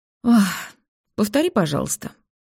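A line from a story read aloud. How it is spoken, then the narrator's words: Sighing speech. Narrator (Russian): муж говорит, обычно вздохнув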